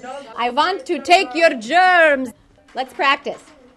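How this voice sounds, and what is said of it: Mock Dracula accent. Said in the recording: “you have to do it with that accent, of course, the Dracula accent.”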